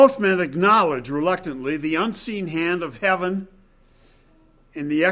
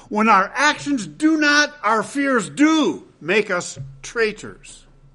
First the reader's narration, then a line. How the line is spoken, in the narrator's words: exclaims